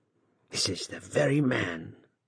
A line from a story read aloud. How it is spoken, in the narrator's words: murmured she to herself